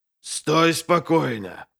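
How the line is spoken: Growl. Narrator (Russian): прорычал он

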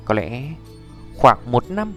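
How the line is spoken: Soft, embarrassed, hesitant. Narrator (Vietnamese): Tiêu Viêm cảm giác mặt đỏ lên, trầm mặc một lúc hắn mới là khẽ nói

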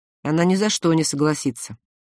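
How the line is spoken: Gloomy. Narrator (Russian): мрачно сказал Родни

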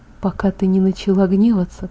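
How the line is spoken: Whisper. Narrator (Russian): прошептал он

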